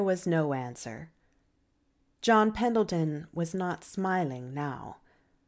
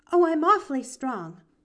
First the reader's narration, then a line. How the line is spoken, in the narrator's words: declared Pollyanna cheerfully